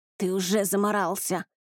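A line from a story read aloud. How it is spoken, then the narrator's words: Growl. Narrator (Russian): рыкнул Риан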